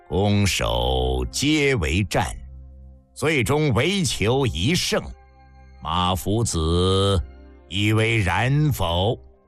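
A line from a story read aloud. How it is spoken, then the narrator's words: Cold. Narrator (Chinese): 廉颇冷冷道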